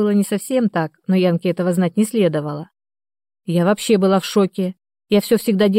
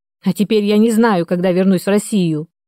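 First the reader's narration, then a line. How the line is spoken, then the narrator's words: Yelled. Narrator (Russian): заорала Яна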